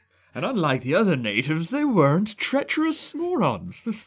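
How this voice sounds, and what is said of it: Put-on British accent. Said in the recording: “I said it in a British accent.”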